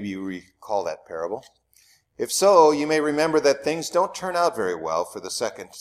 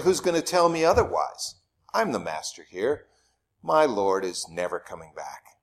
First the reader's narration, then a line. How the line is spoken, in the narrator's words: scoffs the servant